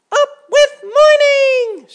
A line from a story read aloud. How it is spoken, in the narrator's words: shouted all the beetles